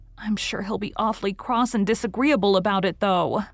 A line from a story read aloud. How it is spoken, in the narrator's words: moaned Anne